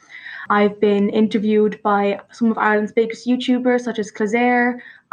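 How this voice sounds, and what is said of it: Irish accent. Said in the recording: “I'm from Ireland, like I've said, and if my accent doesn't give it away”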